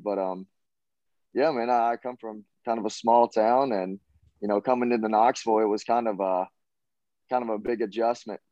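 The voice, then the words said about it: Southern American accent. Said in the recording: “I have kind of Southern in my accent”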